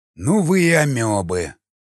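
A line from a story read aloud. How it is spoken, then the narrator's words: Snorting. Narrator (Russian): хмыкнул крест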